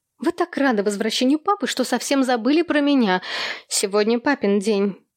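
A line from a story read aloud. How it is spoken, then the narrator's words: Good-natured chuckle. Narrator (Russian): Джо, добродушно хмыкнув, заметила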